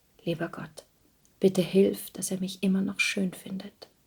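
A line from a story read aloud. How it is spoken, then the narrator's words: Whispered prayer. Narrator (German): stilles Gebet flüsterte sie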